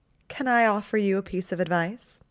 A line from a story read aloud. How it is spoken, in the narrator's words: she asked, in that deceptively sugary tone she used in most of their conversations